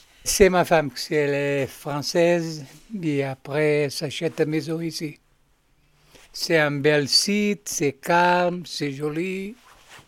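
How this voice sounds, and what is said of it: Slight Portuguese accent in French. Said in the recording (French): “Vous avez un petit accent ... Oui, je suis portugais.”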